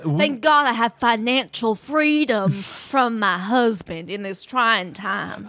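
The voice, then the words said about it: Southern US accent. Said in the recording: “based on the accent, are you from the South?”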